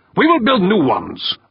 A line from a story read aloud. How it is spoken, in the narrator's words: Urbain snapped